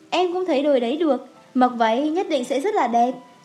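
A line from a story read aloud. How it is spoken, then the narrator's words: Smiling. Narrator (Vietnamese): Giang Tây mỉm cười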